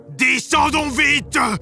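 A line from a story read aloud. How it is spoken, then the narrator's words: Shouted. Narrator (French): criait la Barbe Bleue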